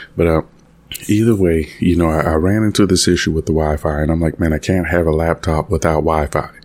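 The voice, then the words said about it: Rough, congested voice. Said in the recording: “I got a cough drop in... I sound a bit rough, a little bit of sinuses going on here”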